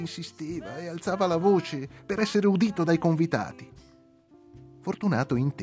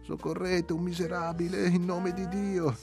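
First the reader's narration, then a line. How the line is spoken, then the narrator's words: Pleading voice. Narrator (Italian): disse il poveretto con voce supplicante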